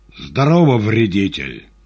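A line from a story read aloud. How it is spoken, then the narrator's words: Angry and loud. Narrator (Russian): злобно и громко ответил Иван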